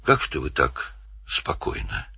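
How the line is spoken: Quiet. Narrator (Russian): тихо сказал Данил

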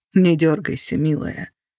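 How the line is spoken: Quiet. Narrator (Russian): тихо сказал он

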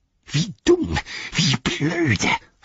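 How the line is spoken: Hissed. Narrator (German): fauchte

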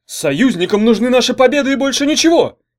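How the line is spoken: Sharp. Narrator (Russian): резко сказал он

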